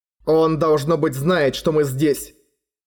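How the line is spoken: Plain. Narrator (Russian): сказал он Арье

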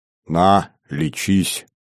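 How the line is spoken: Good-natured offer. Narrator (Russian): благодушно предложил он

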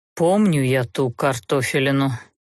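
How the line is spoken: Deliberately gloomy, through teeth. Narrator (Russian): нарочито хмуро процедил Даггард

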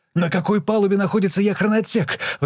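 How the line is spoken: Anxious question. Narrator (Russian): взволнованно спросил он

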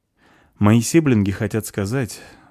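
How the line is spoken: Sigh. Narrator (Russian): вздохнул Эд

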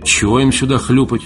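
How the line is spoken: Gloomy. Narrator (Russian): мрачно озвучил Валентин

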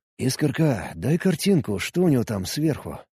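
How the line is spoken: Whisper. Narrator (Russian): прошептал я

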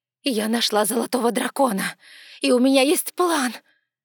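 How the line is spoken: Desperate exclamation, woman. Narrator (Russian): воскликнула королева, в последней отчаянной надежде

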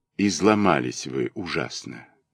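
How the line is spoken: Gentle remark. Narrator (Russian): мягко заметил он

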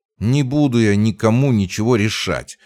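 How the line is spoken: Irritated hiss. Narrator (Russian): раздраженно прошипел рядом Марк

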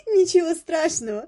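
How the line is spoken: Speaking through laughter. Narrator (Russian): проговорила она сквозь смех

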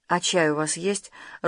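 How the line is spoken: Timid request. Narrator (Russian): робко попросила она

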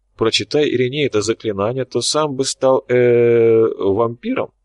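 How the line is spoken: Uncertain question. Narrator (Russian): неуверенно поинтересовался Корф

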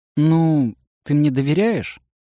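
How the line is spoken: Sighing. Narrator (Russian): Олег вздохнул

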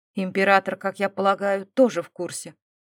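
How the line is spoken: Cold question. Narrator (Russian): холодно поинтересовался Эмбрис

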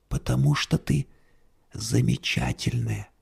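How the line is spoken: Whisper. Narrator (Russian): шепнул он

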